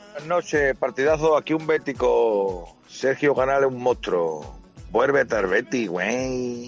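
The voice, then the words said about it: Mexican Spanish accent. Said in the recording (Spanish): “te lo dicen así, con acento mexicano”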